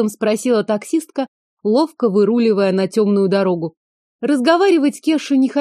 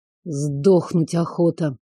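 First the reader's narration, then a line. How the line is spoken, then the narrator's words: Grumbled. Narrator (Russian): буркнул он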